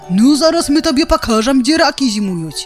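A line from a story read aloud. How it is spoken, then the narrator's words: Bison's roar. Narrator (Belarusian): зароў галоўны зубр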